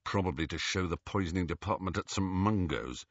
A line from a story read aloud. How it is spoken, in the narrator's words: said Ron under his breath